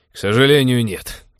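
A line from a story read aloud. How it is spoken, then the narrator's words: Cynical snort. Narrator (Russian): цинично хмыкнул Тед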